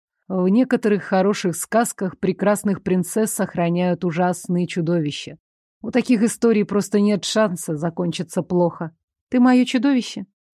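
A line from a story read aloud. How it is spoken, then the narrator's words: Quiet question. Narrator (Russian): Негромко спросила я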